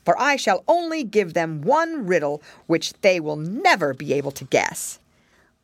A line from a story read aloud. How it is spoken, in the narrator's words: answered the dragon scornfully